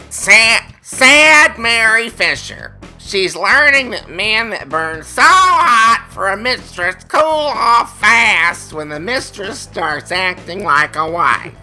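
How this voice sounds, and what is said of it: Impression of Roseanne. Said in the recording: “my flawless impression ... that impeccable impersonation of Roseanne”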